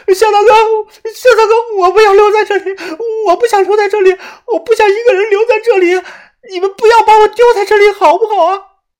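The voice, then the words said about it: Slightly tearful, crying voice. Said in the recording (Chinese): “她声音略带了哭腔”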